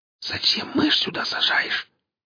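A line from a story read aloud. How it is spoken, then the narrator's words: Whispered. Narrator (Russian): прошептал Гриф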